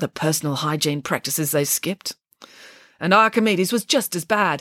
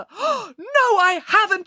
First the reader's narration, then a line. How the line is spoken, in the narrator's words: cried